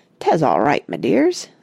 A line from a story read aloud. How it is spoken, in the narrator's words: said he, in a thickening Devon accent